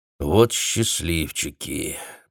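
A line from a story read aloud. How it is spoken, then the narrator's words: Muttering to himself. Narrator (Russian): пробормотал он, забыв, что был не один в кабинете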